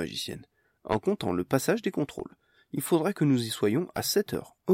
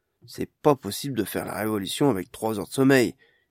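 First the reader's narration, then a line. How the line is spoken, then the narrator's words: Grumbling. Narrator (French): grogna celui-ci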